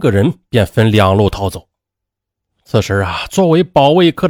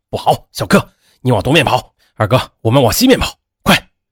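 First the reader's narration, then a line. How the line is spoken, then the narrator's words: Hurried shout. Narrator (Chinese): 彪子急忙的喊道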